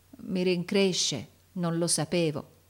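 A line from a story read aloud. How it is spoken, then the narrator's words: Stammering. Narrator (Italian): balbettò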